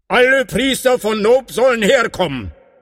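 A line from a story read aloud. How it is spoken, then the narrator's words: Calling out. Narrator (German): rief er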